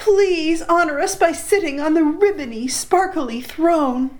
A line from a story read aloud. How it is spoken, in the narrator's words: they cried